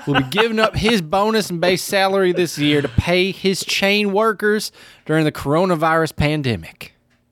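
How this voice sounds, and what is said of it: Put-on Southern Texas accent. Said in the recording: “Is that a Texas accent? I don't know if that's a Texas accent or what that is. ... that was a pretty good Southern accent. ... It does sound kind of Texas-y.”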